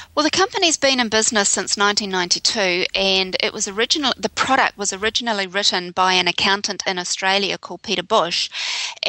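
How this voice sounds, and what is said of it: New Zealand accent. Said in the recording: “Another one with a funny accent.”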